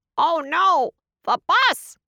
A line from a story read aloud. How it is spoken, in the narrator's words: he cried